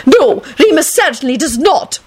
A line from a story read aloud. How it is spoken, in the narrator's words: Minerva snapped